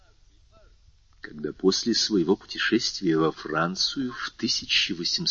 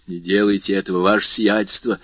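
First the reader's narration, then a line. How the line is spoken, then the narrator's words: Desperate exclamation. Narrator (Russian): в отчаянии воскликнул Бертуччо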